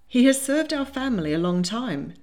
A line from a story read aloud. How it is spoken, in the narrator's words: said April